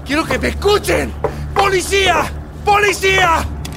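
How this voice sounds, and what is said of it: Shouting. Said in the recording (Spanish): “no grites”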